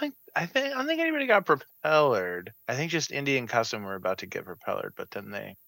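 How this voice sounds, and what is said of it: Usual voice. Nothing is said of it.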